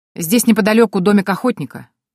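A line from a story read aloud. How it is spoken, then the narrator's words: Sudden shout. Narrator (Russian): вдруг крикнул один из солдат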